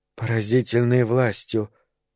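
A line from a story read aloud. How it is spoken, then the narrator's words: Woman muttering. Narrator (Russian): пробормотала миледи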